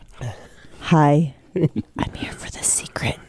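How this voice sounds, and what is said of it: Whispered voice. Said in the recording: “Do you have to do it in a whisper, though? I do”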